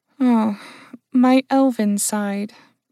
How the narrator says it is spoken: Trish said with a sigh

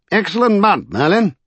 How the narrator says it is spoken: he called out cheerfully

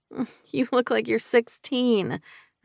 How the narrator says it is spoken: I groaned

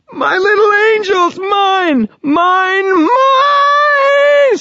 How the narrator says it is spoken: screamed a voice that roared against my face and chest

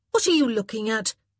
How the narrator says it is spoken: she snapped

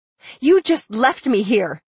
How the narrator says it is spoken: I yelled

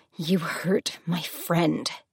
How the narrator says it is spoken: she hissed

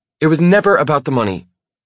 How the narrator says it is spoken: she snaps, suddenly raising her voice

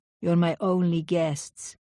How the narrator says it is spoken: he said in his gruff Florentine accent

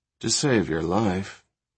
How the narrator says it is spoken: Rachel murmured

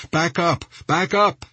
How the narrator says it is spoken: he shouted

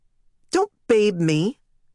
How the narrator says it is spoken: she snapped

